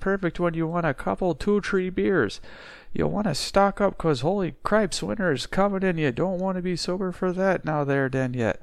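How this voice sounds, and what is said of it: Put-on regional accent, done well. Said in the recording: “very well with that accent. That's a, That's pretty good.”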